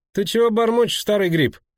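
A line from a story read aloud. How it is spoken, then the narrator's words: Shouted. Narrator (Russian): крикнул Кайли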